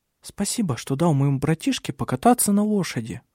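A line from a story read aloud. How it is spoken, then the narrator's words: Soft. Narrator (Russian): мягко сказала она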